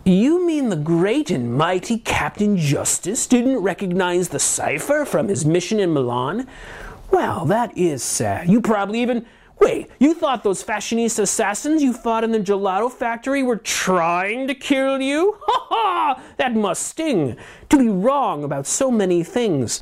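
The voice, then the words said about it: Villain voice, badly done accent. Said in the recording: “my horrible accent”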